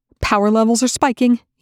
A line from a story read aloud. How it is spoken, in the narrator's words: Eli snapped